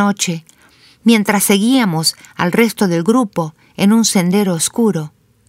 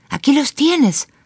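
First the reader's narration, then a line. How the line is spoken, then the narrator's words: Whispered. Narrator (Spanish): susurró Miguel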